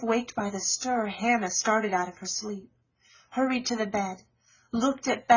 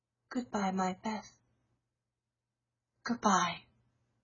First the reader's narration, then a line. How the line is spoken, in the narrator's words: softly whispered